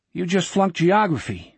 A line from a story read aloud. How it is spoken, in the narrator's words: the salesman said